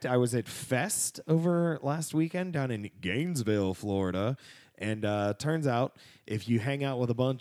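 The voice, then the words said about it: Hoarse, worn-out voice. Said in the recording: “my voice is a bit wrecked ... you're going to catch a cold”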